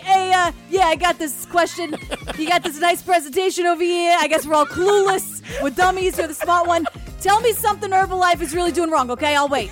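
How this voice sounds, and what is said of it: Put-on Queens New York accent. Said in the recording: “that Queen's accent”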